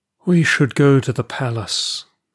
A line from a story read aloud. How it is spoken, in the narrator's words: said wearily